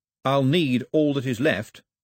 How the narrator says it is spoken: said Mao firmly

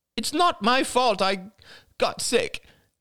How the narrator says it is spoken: cried Crystal

